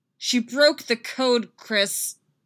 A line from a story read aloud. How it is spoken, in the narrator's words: Laura yells, furious and desperate